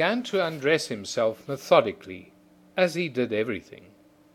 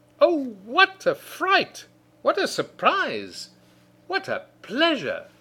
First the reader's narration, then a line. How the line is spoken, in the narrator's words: exclaiming